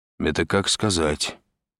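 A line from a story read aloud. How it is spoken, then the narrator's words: Gloomy. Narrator (Russian): мрачно проговорил Андрей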